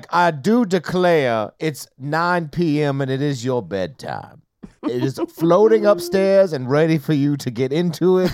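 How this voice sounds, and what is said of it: Put-on old Southern Confederate accent. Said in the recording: “Nelly in a Confederate accent ... Like a Confederate general, like sending his kids to bed”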